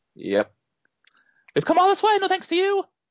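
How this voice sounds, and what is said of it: High-pitched imitation of another person's voice. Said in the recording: “I had no idea he had such a high voice, but it is fairly accurate, your Gene Hackman impression”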